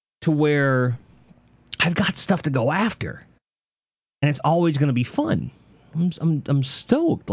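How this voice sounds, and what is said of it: Excited, energetic speech. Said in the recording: “You can hear the excitement in my voice.”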